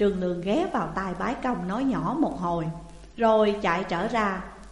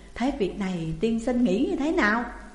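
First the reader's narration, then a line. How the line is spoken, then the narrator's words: Fearful question. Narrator (Vietnamese): Bái Công sợ hãi mới hỏi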